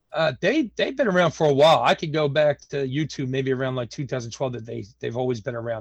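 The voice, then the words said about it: Philadelphia American accent. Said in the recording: “I'm from Philadelphia, Pennsylvania, born and raised in South Philadelphia ... I hope they don't mind my accent”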